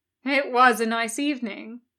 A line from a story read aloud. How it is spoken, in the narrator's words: Crowley smiled wearily